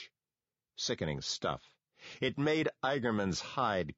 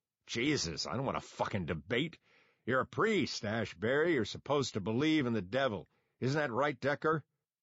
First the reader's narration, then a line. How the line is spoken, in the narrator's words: The doctor grunted